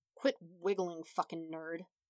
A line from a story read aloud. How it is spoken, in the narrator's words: Bakugo mumbled without opening his eyes